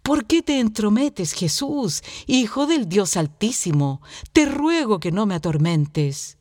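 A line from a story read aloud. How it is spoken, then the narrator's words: Loud exclamation. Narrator (Spanish): exclamó con fuerza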